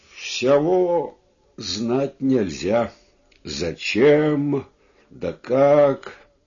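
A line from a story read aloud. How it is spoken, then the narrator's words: Plain, old man. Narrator (Russian): сказал старик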